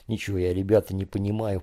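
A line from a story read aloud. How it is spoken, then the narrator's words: Whispered. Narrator (Russian): прошептал Женя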